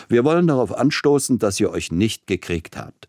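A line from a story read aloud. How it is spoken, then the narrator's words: Booming laugh. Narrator (German): mit einem besonders dröhnenden Lachen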